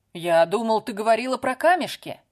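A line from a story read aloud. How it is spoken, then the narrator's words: Shouted from another room. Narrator (Russian): крикнул Дэвид из кухни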